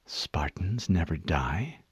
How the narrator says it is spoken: She whispered

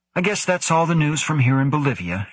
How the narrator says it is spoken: said cheerfully

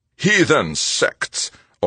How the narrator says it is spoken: Overmeyer spat

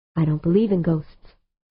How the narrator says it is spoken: said Humphreys

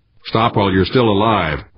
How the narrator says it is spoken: one of the guards shouted

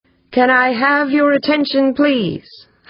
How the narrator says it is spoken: Humphreys called out in a strong baritone

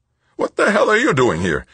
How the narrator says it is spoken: O'Hara demanded, his voice squeaking with shocked surprise

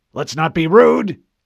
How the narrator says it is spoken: Admiral Whitcomb barked

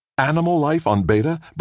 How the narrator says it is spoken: Brad exclaimed

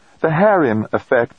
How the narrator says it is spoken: said

